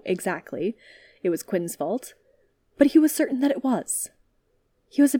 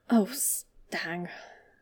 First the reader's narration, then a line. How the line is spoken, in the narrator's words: he mumbled, rubbing a hand over his face tiredly